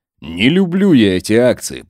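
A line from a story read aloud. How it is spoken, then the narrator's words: Mumbled under breath. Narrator (Russian): пробурчал Волков под нос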